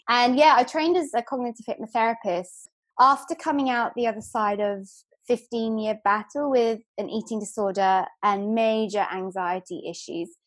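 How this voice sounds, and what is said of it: London English accent. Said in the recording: “as you can tell from the accent i'm originally from london”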